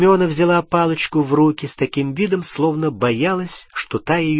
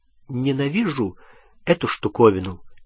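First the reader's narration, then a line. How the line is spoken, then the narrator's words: Quiet. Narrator (Russian): тихо сказала она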